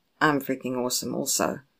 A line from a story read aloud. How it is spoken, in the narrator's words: Cass said with a light chuckle